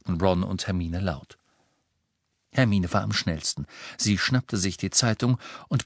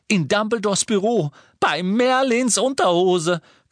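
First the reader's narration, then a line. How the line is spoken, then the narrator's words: Shrieking. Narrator (German): kreischte Hermine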